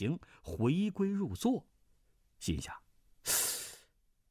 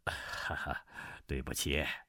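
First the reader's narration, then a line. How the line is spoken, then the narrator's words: Smiling. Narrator (Chinese): 汤佩微笑道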